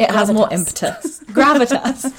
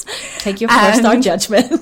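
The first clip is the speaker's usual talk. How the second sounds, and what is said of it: Put-on American accent. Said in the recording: “I don't know why I keep doing an American accent ... you're turning American”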